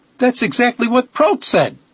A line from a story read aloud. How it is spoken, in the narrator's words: he cried